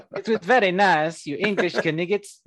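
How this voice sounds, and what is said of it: Put-on French accent. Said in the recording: “And now ... has a French accent as well.”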